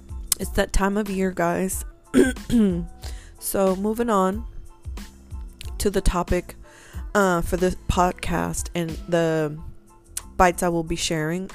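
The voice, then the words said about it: Slightly hoarse voice. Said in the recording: “I apologize if I'm a little hoarse on this episode, but my allergies are so bad.”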